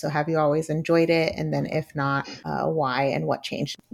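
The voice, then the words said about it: Polished NPR-style podcast voice. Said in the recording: “you have a really good podcast voice ... got that NPR”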